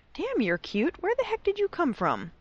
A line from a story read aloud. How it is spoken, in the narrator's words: Draco squeaked excitedly